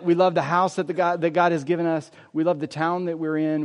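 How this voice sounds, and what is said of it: Southern American accent. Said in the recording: “I've got a southern accent”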